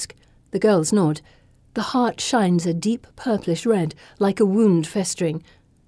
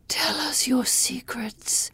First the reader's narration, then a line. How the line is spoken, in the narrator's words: whispers